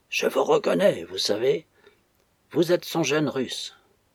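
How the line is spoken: Dreadfully hoarse voice, in French. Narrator (French): Le prisonnier dit, en français, d'une voix effroyablement rauque

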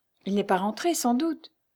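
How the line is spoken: Timid. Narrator (French): reprit timidement Lucie

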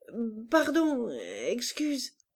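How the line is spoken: Stammering, bewildered. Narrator (French): il bégayait, ahuri

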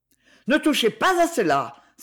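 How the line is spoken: Violent exclamation. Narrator (French): s'écria Aliette violemment

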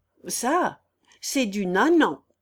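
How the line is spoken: Gleeful shout. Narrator (French): cria Clémence

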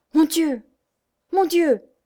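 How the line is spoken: Exclaimed. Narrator (French): s'écria-t-il

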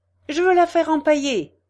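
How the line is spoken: Count exclaiming. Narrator (French): s'écria le comte

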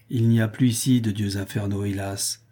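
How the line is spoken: Serious reply. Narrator (French): répondit Amantius d'un ton sérieux

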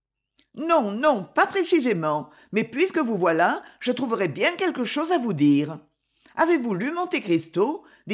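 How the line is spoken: Brisk, lively. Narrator (French): dit-elle vivement

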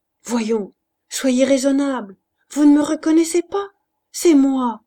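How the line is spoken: Pleading. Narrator (French): suppliant

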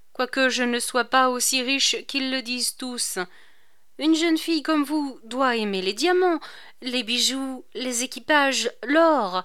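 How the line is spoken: Sighing. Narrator (French): reprit-il en poussant son soupir

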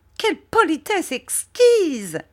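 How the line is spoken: Exclaimed. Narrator (French): s'écria Miss Murdstone

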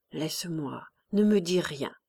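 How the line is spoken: Very soft. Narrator (French): Jos disait très doucement

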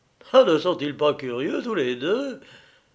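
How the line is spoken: Shrill, gloating voice. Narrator (French): dit Robespierre à Saint-Just d'une voix aigre et en jouissant horriblement

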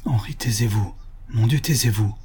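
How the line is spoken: Murmured. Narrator (French): murmura Madame d'Heinsfeld, qui palpitait

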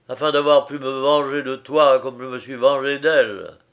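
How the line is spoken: Ill-tempered. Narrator (French): dit le philosophe d'un ton de mauvaise humeur

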